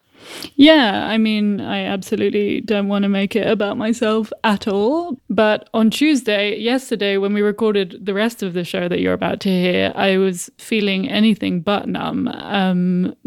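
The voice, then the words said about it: Very British accent. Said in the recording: “Most of you listening probably hear a very British accent”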